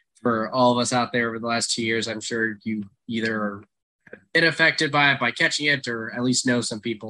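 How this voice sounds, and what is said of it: Raspy, congested voice. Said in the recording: “raspy voice. I'm getting over COVID, so still have a little bit of the congestion hanging around”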